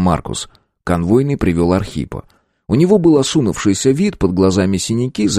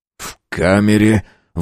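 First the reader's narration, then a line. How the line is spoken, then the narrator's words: Forced, strained words. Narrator (Russian): выдавил себя Кравченко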